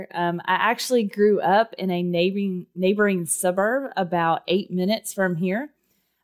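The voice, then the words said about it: Texan accent. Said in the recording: “if you can't tell by my accent, I was born and raised in Texas”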